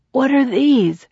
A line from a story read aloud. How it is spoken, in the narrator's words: ask hoarsely